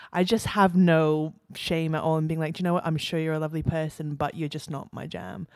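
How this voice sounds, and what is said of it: Non-Australian accent. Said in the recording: “for those who can't tell by her accent, you're not from Australia”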